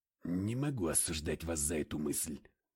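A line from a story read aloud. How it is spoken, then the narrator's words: Muttered. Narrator (Russian): пробормотал я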